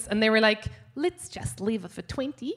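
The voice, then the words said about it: Put-on accent, done perfectly. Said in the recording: “That's the last time I'll do your accent ... That is three perfect accents from you, mate.”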